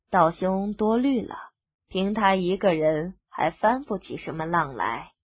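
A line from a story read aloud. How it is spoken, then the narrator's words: Cool, indifferent. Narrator (Chinese): 柳芙蓉淡淡的道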